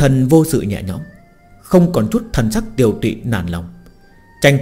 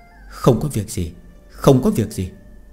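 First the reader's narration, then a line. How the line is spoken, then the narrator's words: Gentle, comforting female ghost. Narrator (Vietnamese): Nữ quỷ khuê danh Oanh Oanh ôn nhu an ủi nói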